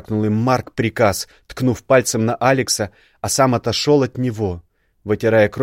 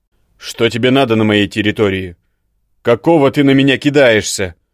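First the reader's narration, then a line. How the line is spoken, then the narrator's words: Loud bark. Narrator (Russian): гаркнул Марк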